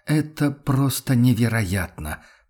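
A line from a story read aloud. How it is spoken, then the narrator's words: Angry mutter. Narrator (Russian): пробормотал он со злостью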